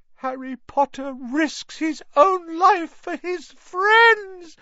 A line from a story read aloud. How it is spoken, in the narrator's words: moaned Dobby, in a kind of miserable ecstasy